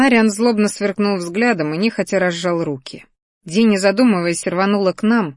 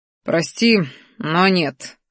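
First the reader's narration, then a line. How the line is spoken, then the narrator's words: Scoffing. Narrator (Russian): хмыкнул черный дракон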